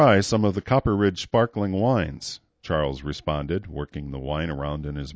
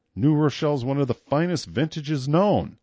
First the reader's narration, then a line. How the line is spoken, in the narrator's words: Melodic replied hotly